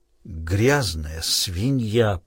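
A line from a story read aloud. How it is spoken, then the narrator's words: Hissed, frothing with rage. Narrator (Russian): прошипел Крейг, и на его нижней губе появилась пена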